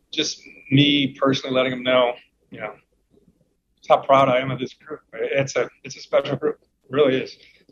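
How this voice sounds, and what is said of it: Emotional, choking back tears. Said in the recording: “Choking back tears ... pardon me for getting a little emotional”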